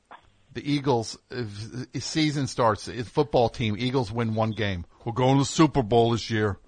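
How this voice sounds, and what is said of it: Imitates a Philadelphia sports fan. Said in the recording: “my impression of a person from Philadelphia”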